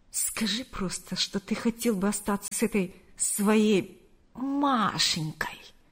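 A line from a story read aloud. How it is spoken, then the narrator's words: Mocking drawl. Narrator (Russian): С издевкой протянула она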